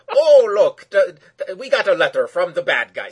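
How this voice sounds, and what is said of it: Bad put-on Irish accent. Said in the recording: “trying to do the bad Irish voice”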